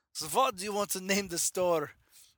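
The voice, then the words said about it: Bad put-on German accent. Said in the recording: “you're doing a German accent. It's really bad ... just a bad German accent”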